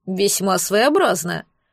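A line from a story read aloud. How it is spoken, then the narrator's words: Interested snort. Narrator (Russian): заинтересованно хмыкнул Аж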